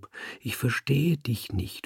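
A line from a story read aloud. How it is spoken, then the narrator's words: Whisper. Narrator (German): flüsterte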